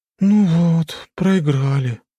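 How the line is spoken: Sad sigh. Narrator (Russian): вздохнула одна из валькирий и загрустила

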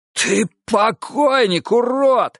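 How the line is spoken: Hoarse rasping monk. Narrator (Russian): хрипел монах

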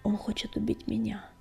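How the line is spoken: Very quiet, barely audible. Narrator (Russian): проговорила она так тихо, что Огнегриф и тот едва разобрал ее слова

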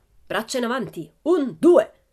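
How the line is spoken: Shrieked. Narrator (Italian): strillò

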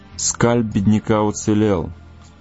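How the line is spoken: Calm remark. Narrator (Russian): спокойно заметил Соколиный глаз

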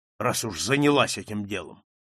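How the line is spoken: Rough male reply. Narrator (Russian): грубо ответил он

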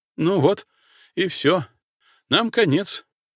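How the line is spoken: Frightened squeak. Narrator (Russian): пискнул шифровальщик

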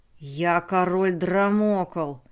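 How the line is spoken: Menacing voice. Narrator (Russian): грозным голосом сказал Драмокл

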